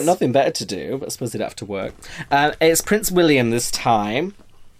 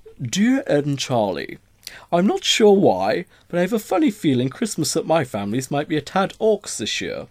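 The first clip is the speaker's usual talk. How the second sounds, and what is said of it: Put-on posh voice. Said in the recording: “do my posh voice”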